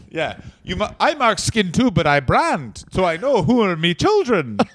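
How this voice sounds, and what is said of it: Put-on Irish accent. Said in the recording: “I like that we're both good at accents. That went from German to Russian to Irish. Finally arrived at Irish.”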